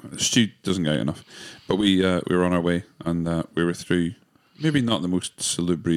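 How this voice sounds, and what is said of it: Usual voice. Nothing is said of it.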